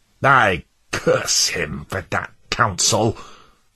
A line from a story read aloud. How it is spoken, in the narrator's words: snarled Worldly Wise Man